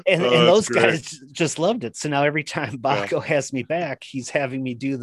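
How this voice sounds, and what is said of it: Usual voice. Nothing is said of it.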